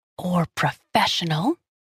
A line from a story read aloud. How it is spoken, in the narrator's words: she whispered